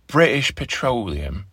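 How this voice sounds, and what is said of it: Put-on English accent. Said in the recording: “Maybe I should say that with an English accent.”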